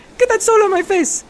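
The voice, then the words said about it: Super high-pitched voice. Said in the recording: “He had a super high voice... sounds like a little girl”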